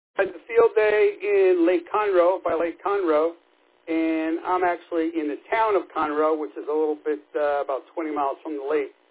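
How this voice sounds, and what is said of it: New York or New Jersey accent. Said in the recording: “from your accent, I thought you were either from Jersey or New York.”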